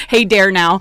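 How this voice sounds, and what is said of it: Exaggerated Wisconsin accent. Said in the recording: “I'm actually from Milwaukee, Wisconsin, and there goes that accent.”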